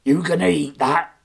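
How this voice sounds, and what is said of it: Gruff pirate voice. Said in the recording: “in a gruff voice”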